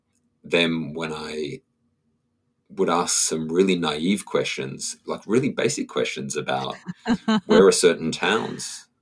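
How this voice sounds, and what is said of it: Foreign, non-Canadian English accent. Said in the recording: “I was very conscious of my accent... the second I opened my mouth, it's pretty clear that I'm not from Canada”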